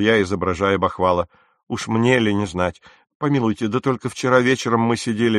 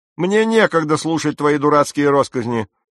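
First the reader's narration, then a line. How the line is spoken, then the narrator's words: Barking shout. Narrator (Russian): закричал мистер Хейвуд, а вернее сказать, прогавкал, как ему псу и полагалось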